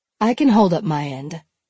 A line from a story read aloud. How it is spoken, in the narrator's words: Malenka said curtly